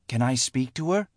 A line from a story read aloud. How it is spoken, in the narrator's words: Leah whispered